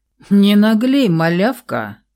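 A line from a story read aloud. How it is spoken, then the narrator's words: Growled without malice. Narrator (Russian): Рыкнул он, впрочем, совершенно беззлобно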